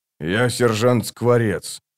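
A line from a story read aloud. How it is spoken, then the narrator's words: Quiet. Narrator (Russian): тихо сообщил Бородач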